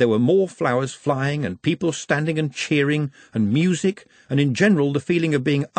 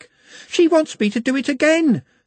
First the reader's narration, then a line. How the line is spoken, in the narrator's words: panted